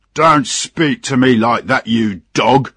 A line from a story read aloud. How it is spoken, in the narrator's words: shouted the captain